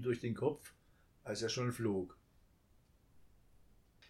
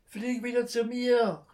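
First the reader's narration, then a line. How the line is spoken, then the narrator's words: Child calling after. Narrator (German): rief das Kind ihm nach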